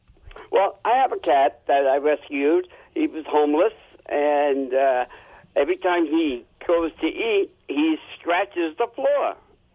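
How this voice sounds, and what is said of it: New Jersey accent. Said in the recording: “I could tell from your accent that you're a Jersey boy.”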